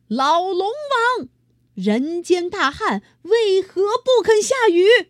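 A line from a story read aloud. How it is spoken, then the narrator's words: Loud shout. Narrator (Chinese): 哪吒大喊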